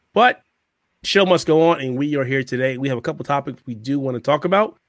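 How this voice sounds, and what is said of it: Hoarse, strained voice. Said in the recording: “I'm still a little hoarse, having a little problem speaking out ... Hopefully, I don't lose my voice”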